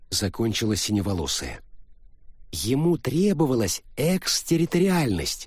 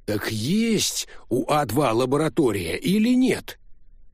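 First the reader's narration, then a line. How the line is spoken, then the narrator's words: Loud question. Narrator (Russian): громко спросил Гуннарсон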